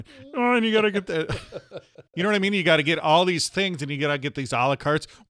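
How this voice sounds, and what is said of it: Kermit the Frog character voice. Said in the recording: “your Kermit the Frog voice ... Okay, I'll go back to Kermit.”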